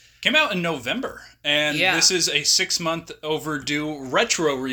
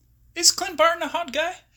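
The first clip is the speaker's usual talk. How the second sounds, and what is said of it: Voice rises in pitch. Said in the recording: “Why did my voice go up?”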